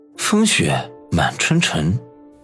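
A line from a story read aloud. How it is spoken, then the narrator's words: Muttering to himself. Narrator (Chinese): 小东北口中喃喃自语说道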